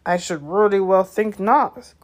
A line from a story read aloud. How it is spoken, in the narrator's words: growled Hagrid